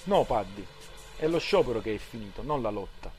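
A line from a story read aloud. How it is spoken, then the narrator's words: Plain. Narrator (Italian): rispose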